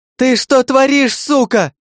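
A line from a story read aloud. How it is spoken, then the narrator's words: Shrieking. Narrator (Russian): Завизжала за моей спиной Герда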